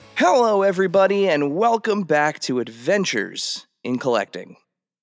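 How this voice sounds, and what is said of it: Squeaky voice with a cold. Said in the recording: “that was a squeaky hello, everybody. ... I have a little bit of a cold”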